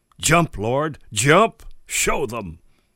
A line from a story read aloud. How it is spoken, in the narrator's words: The flesh cried loudly